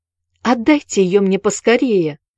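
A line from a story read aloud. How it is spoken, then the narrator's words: Pleading with joyful impatience. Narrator (Russian): взмолился Сэнди, стискивая руки от радостного нетерпения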